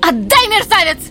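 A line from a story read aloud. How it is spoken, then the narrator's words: Shrieking, speech regained. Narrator (Russian): завопила она, обретя, наконец, утерянный дар речи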